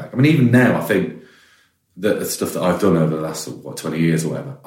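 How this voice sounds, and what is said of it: West Midlands English accent. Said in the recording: “I'm doing my own accent... No one wants to hear my accent... like from the West Midlands”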